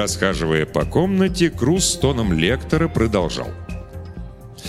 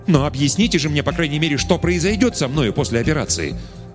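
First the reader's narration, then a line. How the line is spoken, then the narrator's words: Irritated exclamation, blind man. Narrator (Russian): раздраженно воскликнул слепой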